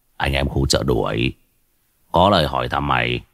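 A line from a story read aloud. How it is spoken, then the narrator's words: Harsh, menacing voice. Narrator (Vietnamese): Hưng Tàu Phù gằn giọng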